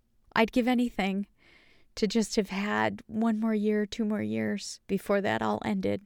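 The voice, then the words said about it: Emotional, choked-up voice. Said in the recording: “I don't know why I'm getting emotional, but I am.”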